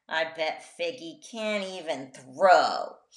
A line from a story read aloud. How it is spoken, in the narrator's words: he sneered